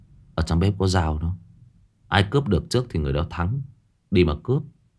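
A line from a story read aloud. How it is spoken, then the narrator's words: Slow weary sigh. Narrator (Vietnamese): người chơi số 9 chậm chậm thở dài cất lời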